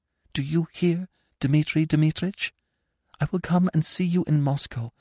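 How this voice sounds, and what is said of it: Whispering. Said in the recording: “went on in a whisper.”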